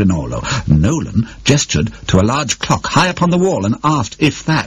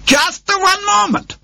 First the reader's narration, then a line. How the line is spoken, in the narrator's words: Rinaldo shouted